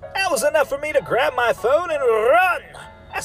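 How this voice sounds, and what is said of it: Usual voice. Nothing is said of it.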